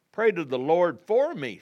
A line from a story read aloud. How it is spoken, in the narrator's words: Simon exclaimed